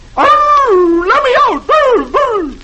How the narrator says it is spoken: he howls

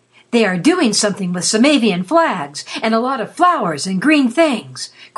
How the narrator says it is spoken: cried in excitement

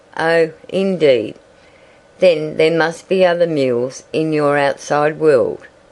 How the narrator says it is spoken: said the tiger, yawning sleepily

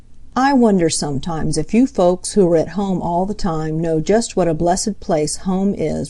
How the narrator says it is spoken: replied Jenny

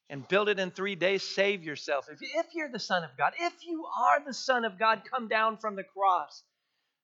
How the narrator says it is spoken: mocking

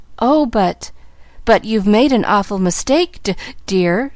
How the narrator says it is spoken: faltered

